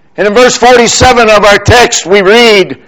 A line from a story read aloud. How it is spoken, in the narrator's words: he cried out